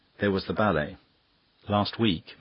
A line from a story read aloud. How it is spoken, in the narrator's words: said Dennis desperately